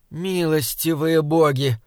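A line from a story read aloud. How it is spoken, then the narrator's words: Moaned. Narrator (Russian): простонала Мэгвин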